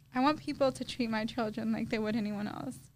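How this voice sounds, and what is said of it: Emotional, choked-up voice. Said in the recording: “Oh my God, I'm getting emotional.”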